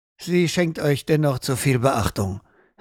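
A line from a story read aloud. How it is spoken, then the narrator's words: King's rough voice. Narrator (German): sagte der König rau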